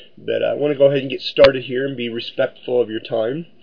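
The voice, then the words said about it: Rough, congested voice from cold. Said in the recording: “I sound a little rough. I do have a little bit of a cold ... my sniffling”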